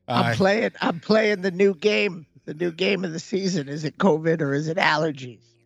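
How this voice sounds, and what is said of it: Sick, croaky old-lady-like voice. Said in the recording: “you sound like an old lady today. You're a little bit under the weather”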